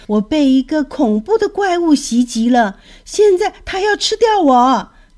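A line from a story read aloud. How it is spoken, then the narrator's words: Yelling. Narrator (Chinese): 他一边叫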